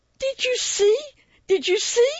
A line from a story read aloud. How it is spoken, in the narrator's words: shrieked one of the girls